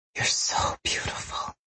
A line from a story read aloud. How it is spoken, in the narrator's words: she whispered